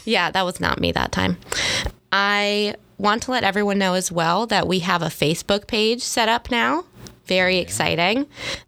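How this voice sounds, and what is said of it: Slightly nasal, congested voice. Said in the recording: “I am slightly ill. So if my voice sounds a little bit more nasally than usual”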